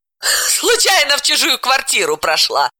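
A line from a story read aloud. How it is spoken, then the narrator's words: Woman laughing. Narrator (Russian): рассмеялась Далила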